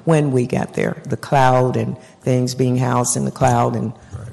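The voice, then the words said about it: Hoarse, fading voice. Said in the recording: “I'm sorry I'm losing my voice here”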